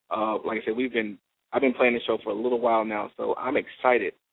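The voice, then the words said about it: Strained, failing voice. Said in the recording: “My voice is getting a little trying to get away from me”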